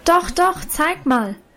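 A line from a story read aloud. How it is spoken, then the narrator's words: Called out. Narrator (German): rief nun aber auch schon Lina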